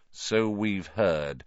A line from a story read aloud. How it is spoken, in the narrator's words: said Lupin, more coldly